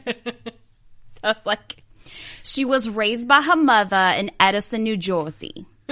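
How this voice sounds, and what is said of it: Put-on New Jersey accent. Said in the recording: “read the whole sentence in my accent ... the New Jersey accent was like playing in my head”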